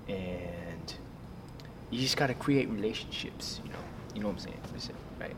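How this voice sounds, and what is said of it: Quiet side-of-mouth voice, maybe Boston. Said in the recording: “You got to talk out of the side of your mouth ... you got the side of the mouth thing ... I don't know if this is a Boston accent or what it is ... It's all so quiet, like just between me and you.”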